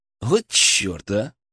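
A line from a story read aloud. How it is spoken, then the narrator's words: Snort. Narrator (Russian): хмыкнул я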